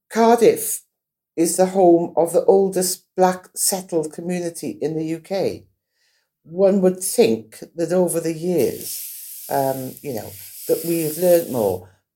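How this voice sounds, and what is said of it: Cardiff Welsh accent. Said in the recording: “I am a Cardiffian, you can tell by my accent.”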